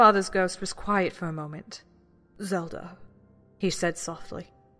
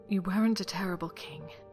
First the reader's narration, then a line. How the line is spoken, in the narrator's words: Zelda whispered